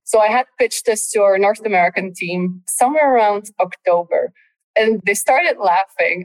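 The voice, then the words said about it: Non-American accent. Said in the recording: “you can probably tell from my accent that I'm not American”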